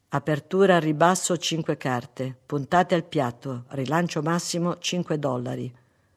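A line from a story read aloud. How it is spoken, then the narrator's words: Man's near whisper. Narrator (Italian): l'uomo disse quasi sottovoce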